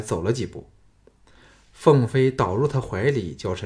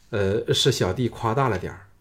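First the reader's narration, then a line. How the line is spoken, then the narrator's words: Flat, indifferent. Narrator (Chinese): 项少龙淡淡的说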